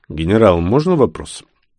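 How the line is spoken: Deep bass voice. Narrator (Russian): Баранников пробасил микрофон

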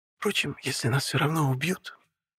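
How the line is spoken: Bitter whisper. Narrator (Russian): шепнула горько Таня

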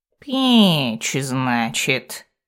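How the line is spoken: Drawling voice. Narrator (Russian): снова протянул голос

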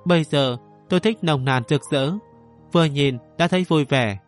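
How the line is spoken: Thin cold smile. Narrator (Vietnamese): Mộ Tử cười nhạt nói

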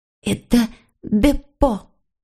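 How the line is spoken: Whisper. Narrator (Russian): прошептал Филипп

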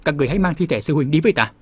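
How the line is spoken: Angry. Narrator (Vietnamese): Lão ma tức giận, nói

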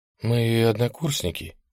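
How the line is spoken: Mumble. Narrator (Russian): промямлила я

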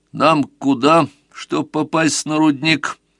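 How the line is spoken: Plain. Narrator (Russian): спросил Сварог

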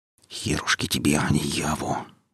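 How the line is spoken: Silent inner muttering. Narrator (Russian): бормотал мысленно сталкер

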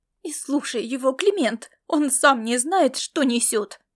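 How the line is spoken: Heated exclamation. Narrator (Russian): Горячо воскликнула она

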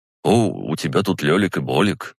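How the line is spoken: Quiet. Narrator (Russian): тихо сказал он

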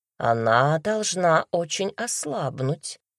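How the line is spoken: Thoughtful drawl. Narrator (Russian): задумчиво протянула Джайна

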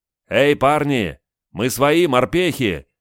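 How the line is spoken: Soldiers shouting from windows. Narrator (Russian): закричали из окон десантники

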